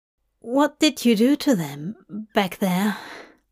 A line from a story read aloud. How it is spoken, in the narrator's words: Hop asked, his voice distant from his ears